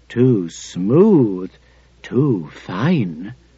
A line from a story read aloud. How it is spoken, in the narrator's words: whispered above her